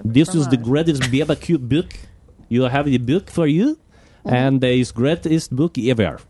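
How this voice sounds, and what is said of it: Put-on French and Kazakh accent. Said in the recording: “That's my French and Kazakhstan accent.”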